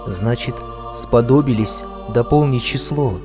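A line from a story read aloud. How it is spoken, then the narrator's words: Whisper. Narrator (Russian): прошептал Аким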